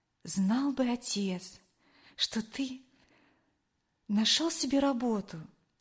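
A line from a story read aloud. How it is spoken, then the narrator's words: Quiet speech. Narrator (Russian): тихо произнесла она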